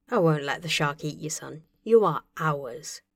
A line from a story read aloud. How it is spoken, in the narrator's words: Tony told him softly